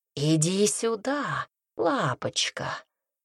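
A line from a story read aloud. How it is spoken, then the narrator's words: Purring voice. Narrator (Russian): промурлыкал голос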